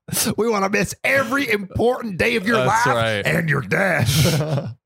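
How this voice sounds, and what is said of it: Put-on Southern accent. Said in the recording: “we're giving Southern accents.”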